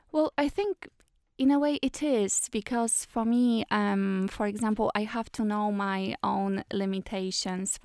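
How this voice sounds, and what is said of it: Non-native accent. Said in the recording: “I still speak with an accent”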